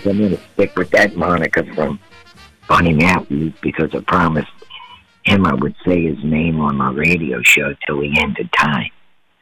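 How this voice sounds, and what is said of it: Voice in poor condition. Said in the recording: “my voice isn't too good ... other than your voice?”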